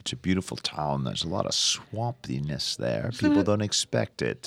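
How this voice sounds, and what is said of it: Put-on British accent. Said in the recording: “How did you get that accent? ... I would like to be British again.”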